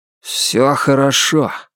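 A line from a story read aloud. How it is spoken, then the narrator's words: Muffled, hollow voice. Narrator (Russian): глухо сказал Лестер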